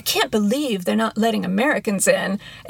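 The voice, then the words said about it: Exaggerated heavy American accent. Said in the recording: “you did the American heavy accent to talk like Americans ... terrible impersonation”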